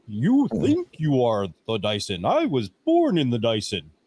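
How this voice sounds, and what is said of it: Imitates the movie villain Bane. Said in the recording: “You can do your best Bane impression”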